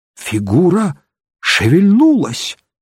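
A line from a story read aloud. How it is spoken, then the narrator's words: Exclaimed. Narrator (Russian): воскликнул я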